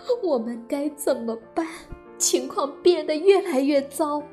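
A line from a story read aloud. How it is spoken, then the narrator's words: Crying woman. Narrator (Chinese): 克里姆太太哭着说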